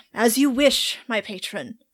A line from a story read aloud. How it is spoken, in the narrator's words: Diamond sighs and he goes